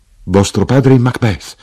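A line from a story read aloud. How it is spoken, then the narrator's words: Exclaiming. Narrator (Italian): io esclamai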